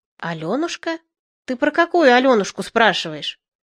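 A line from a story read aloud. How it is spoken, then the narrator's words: Confused mumble. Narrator (Russian): Она растерянно промычала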